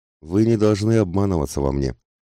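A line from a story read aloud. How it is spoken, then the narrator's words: Gloomy, after a pause. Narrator (Russian): произнесла она после небольшой паузы, мрачно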